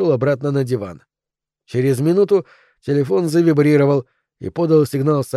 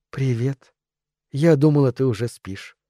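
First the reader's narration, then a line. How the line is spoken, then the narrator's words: Quiet. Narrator (Russian): тихо сказала Изабелла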